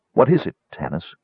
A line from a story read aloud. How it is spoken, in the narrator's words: Crisania asked coldly